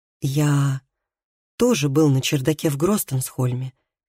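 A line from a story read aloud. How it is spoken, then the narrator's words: Soft. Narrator (Russian): мягко сказал Тарий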